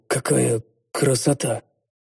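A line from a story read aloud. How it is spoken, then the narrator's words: Muttered. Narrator (Russian): Пробормотал я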